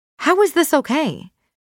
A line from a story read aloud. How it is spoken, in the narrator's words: Maxine says loudly, addressing the entire room